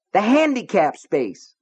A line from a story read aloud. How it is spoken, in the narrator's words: Norris shouted